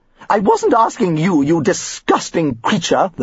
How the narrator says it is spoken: the matron snapped

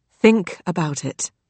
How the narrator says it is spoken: he said gently

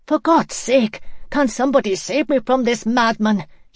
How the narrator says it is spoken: gasped

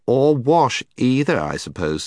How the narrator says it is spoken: said Jill scornfully

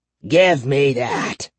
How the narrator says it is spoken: he rasped

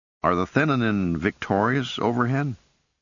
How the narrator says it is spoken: asked anxiously

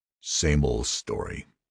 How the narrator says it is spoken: Ed said bitterly

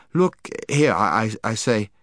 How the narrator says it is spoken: stammered

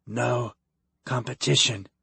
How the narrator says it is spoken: groaned

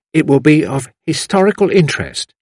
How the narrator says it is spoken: said the intellectual girl firmly

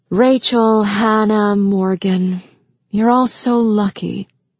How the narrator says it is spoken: Emily said with a small sigh

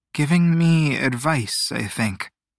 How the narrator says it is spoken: Teo murmured

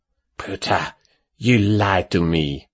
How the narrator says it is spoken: Matteo growled

